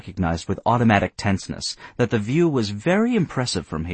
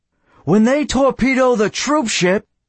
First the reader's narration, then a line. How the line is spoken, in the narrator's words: he shouted